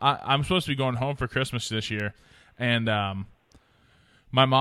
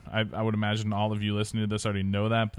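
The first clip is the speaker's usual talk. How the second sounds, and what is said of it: Sarcastic tone. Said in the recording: “but that was sarcasm.”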